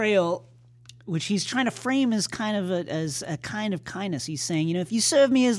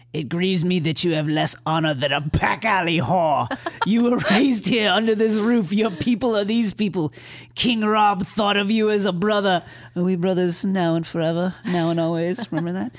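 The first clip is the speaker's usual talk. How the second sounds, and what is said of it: Imitated voice of Roderick. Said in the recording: “I have to do the Roderick voice.”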